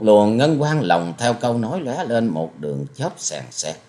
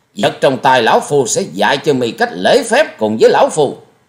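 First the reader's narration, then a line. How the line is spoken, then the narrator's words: Furious loud shout. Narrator (Vietnamese): Thiết Diện Âm Ty như lửa cháy thêm dầu quát to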